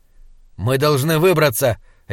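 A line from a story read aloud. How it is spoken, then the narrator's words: Sharp statement. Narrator (Russian): резко сказал Слудик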